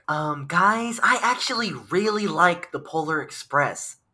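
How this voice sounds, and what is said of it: Imitates another person's voice. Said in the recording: “my impression of Rick”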